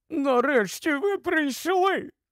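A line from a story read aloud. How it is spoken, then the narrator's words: Exclaimed. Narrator (Ukrainian): вигукнула вона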